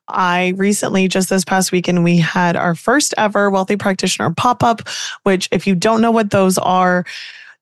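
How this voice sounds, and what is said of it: Hoarse voice. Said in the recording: “my voice is a little hoarse”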